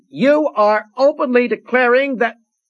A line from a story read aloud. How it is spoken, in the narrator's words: The advocate, unheeded, was yelling